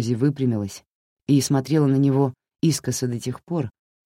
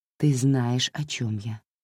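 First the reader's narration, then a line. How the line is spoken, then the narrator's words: Quiet. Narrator (Russian): тихо сказала она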